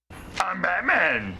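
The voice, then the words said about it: Batman voice like Cookie Monster. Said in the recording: “That was Batman. ... You sound like Cookie Monster.”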